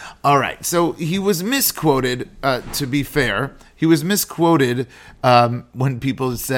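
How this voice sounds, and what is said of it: Usual voice. Nothing is said of it.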